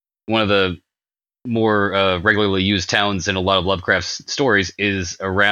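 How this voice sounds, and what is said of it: Usual voice. Nothing is said of it.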